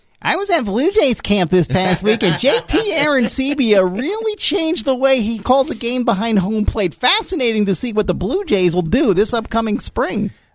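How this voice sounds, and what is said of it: Imitates another person's voice. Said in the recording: “my Timmy Kirchner impersonation”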